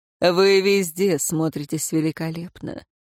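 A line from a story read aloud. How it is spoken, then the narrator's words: Low purring voice. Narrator (Russian): понизив голос, промурлыкал советник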